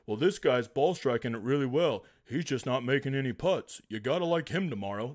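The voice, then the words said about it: Imitates a sports betting tout. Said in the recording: “my impersonation of every single one of them ... a tout site talk about Showdown”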